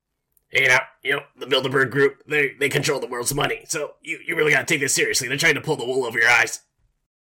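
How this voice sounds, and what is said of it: Alex Jones impression resembling Rick Sanchez. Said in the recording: “your Alex Jones impersonation ... Was it Alex Jones, or was it impersonation of Rick from Rick and Morty? ... this sounds more like Rick from Rick and Morty than Alex Jones”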